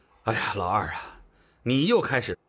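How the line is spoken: Helpless sigh. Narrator (Chinese): 赵正大听到弟弟这么说，无奈地叹了口气说道

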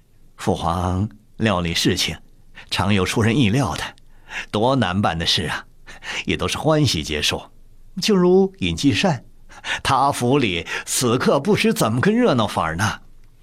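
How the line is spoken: Laughing. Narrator (Chinese): 红石笑着岔开了话题，说道

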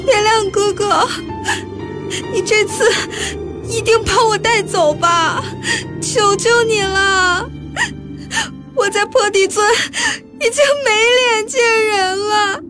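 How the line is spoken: Sobbing while speaking. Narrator (Chinese): 哭出了声，边哭边说

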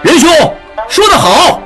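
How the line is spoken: Loud. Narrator (Chinese): 智英闻言大声说

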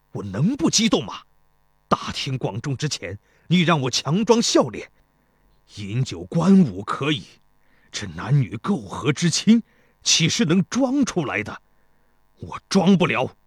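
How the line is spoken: Angry. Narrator (Chinese): 太子申怒道

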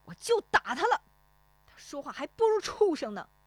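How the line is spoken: Angry voice. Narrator (Chinese): 石丽华怒声说

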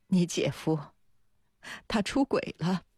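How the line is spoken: Choking up on phone. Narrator (Chinese): 电话里，周文君的声音很快就哽咽起来

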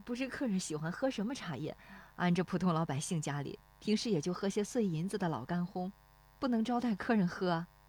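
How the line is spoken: Shy, quiet voice. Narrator (Chinese): 那妇女笑得有些羞涩，低声说

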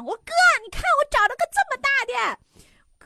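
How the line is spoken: Shouting at full voice. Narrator (Chinese): 扯脖子，我就跟我哥喊

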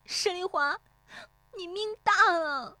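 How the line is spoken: Tearful shout. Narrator (Chinese): 悄然变色，带着哭腔喊

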